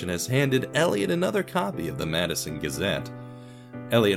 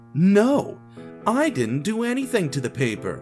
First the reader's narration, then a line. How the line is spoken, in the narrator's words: Elliot annoyedly exclaimed